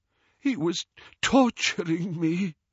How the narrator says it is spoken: he gasped

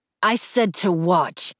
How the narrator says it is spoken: he said through clenched teeth

